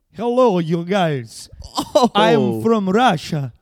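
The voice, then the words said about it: Put-on Russian accent. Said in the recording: “best Russian impression ... That was wicked good, too.”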